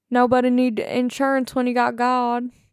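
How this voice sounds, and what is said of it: Bad put-on Southern accent. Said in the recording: “That was a very bad Southern accent.”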